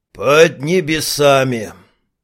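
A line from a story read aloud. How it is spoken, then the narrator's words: Dreamy sigh, alchemist. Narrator (Russian): Алхимик мечтательно вздохнул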